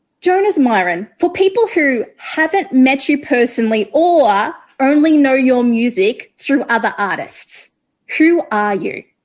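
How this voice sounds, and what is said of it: Australian accent. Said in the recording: “Australia is one of my favorite countries in the world. So just hearing your accent”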